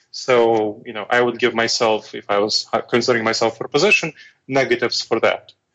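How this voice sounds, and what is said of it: Foreign accent. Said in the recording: “I have a foreign accent, weird-sounding foreign accent”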